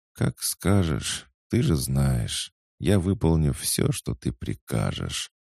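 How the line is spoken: Tired purr. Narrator (Russian): устало промурлыкала девушка

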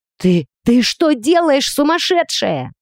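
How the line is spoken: Shrill scream echoing. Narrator (Russian): пронзительно завопил Зейн на всю пещеру

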